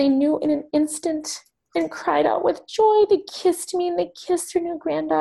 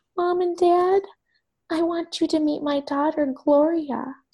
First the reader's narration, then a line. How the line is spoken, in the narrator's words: I said in a small voice